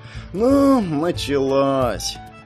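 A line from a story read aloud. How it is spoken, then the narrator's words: Bored tone. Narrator (Russian): Джерри скучающим тоном произнес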